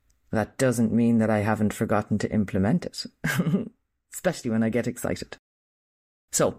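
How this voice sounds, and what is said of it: Usual voice. Nothing is said of it.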